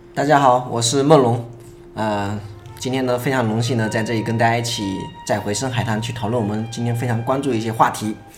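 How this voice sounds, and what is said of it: Minnan-accented Mandarin. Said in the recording (Chinese): “我是产自闽南 ... 口音都听得出 ... 在闽南界是很标准。”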